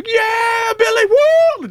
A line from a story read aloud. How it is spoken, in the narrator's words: screaming